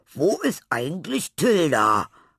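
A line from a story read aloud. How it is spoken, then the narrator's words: Exclaiming. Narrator (German): rief Laurenz aus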